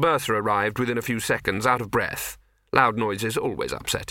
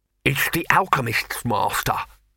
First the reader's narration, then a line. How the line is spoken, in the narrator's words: he panted